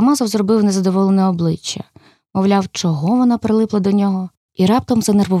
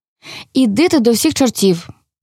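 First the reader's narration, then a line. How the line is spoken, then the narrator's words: Cried out. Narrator (Ukrainian): скрикнув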